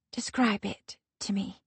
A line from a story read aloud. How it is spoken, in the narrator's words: Aspeth whispers